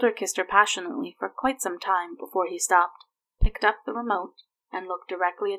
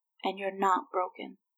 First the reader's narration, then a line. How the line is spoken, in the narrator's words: she said softly to him